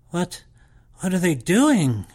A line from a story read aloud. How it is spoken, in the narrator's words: I gasped